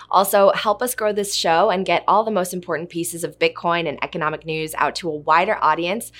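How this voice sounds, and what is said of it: Hoarse, strained voice. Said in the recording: “Please excuse my voice this week. I'm recovering from laryngitis.”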